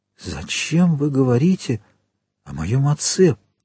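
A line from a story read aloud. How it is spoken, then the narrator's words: Whispered. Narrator (Russian): прошептал он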